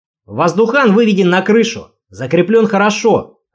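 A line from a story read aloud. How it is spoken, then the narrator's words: Yelling. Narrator (Russian): орал напарник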